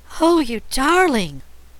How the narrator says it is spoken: cried Trot

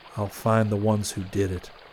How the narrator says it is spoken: he whispered

